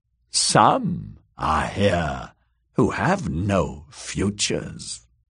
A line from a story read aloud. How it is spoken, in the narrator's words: Maggie muttered in her terrible deep voice